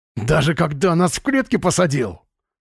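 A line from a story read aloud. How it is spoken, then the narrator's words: Growling. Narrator (Russian): Слава зарычал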